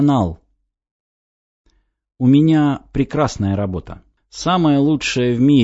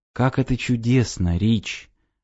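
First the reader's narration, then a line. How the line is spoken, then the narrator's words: Barely audible. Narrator (Russian): еле слышно сказала девушка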